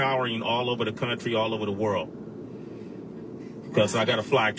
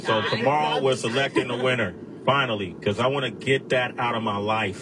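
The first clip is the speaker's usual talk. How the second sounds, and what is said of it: Angry-sounding delivery. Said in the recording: “you sound so angry.”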